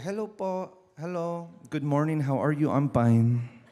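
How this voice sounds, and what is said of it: Imitated Filipino accent. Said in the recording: “talk like a Filipino ... I had that accent”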